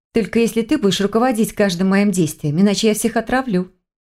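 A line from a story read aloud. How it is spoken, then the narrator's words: Plain. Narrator (Russian): ответила она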